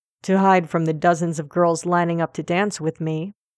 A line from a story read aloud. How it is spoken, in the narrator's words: Draco says dryly